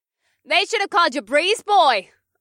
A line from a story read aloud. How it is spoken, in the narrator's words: I called out